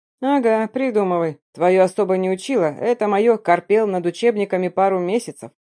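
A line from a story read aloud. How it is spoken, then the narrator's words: Sarcastic snort. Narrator (Russian): саркастично хмыкнул Макс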